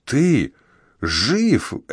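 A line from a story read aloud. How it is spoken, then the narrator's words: Breathed out word. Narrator (Russian): Эбрукс буквально выдохнул это слово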